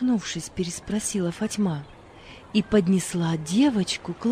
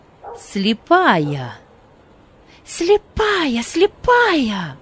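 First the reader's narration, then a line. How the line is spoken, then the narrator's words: Shouting. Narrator (Russian): закричала Фатьма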